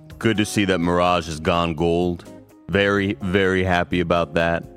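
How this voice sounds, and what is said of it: Deep-voiced Paris Lily impression. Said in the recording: “a Paris Lily impression ... You're doing a great deep voice ... Nailed it”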